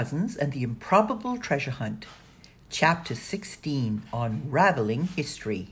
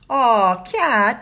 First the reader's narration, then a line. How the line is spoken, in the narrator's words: moaned Danny